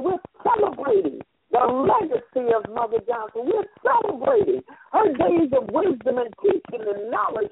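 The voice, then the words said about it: Hoarse, strained voice. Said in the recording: “I'm losing my voice as it is”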